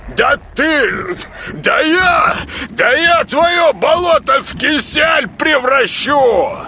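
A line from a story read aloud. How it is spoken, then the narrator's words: Sputtering shout. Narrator (Russian): закричал, наконец, он, оплевываясь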